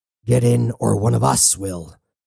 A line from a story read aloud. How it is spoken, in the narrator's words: Cybele growled at Woods